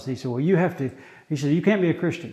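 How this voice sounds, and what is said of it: American accent. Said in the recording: “he asked me if I was an American, obviously from my accent. That was immediately evident.”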